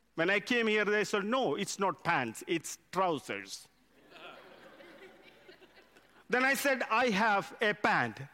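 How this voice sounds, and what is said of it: Indian English accent. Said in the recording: “I come from India. English is my second language. I was taught by Indian teachers... So my accent is different.”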